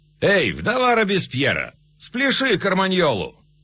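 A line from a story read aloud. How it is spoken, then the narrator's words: Mocking shouts. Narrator (Russian): нувориши измывались, а голодным женщинам кричали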